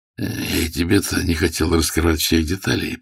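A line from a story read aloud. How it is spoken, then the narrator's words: Grumbling. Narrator (Russian): проворчал Ермилов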